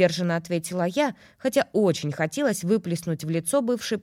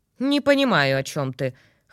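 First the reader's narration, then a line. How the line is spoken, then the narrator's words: Scornful snort. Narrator (Russian): хмыкнула ведьма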